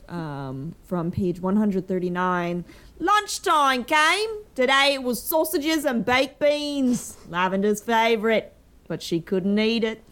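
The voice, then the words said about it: Put-on English regional accents. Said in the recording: “when ... doing her accent ... I actually am from Virginia and not from every county in England ... I think I covered at least like three between those five”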